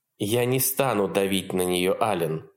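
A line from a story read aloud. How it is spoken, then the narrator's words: Calm explanation. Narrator (Russian): спокойно пояснила Елизавета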